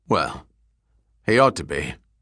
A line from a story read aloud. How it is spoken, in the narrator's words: Falconer retorted gruffly